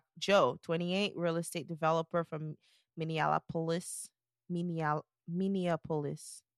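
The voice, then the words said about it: Non-native accent. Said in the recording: “I have an accent, okay? I'm not from here.”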